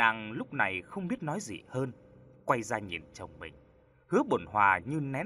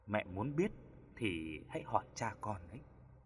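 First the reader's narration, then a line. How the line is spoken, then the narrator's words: Gentle reply. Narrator (Vietnamese): Hứa Tiểu Lan nhẹ nhàng đáp lại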